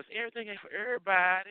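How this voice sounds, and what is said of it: Imitates another person's voice. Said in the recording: “In my Ebony McDonald voice,”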